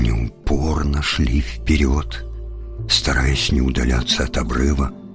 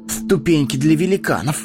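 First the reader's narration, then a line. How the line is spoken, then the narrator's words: Amused snort. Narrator (Russian): хмыкнул он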